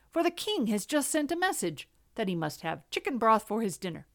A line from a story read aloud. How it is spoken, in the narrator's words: he exclaimed